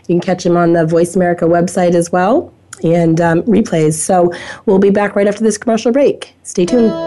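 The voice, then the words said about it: Hoarse voice. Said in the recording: “I apologize for my hoarse voice here”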